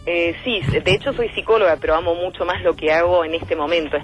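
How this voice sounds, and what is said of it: Beautiful broadcaster-like voice. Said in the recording (Spanish): “una voz de locutora hermosa”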